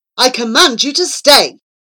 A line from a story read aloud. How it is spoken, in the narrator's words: roared Wolf